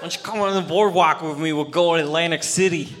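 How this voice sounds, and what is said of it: Put-on regional accent. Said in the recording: “your accent is so alluring”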